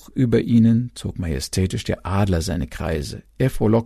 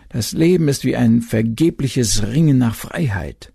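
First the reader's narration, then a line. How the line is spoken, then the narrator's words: Moaning waves. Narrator (German): die Wogen stöhnten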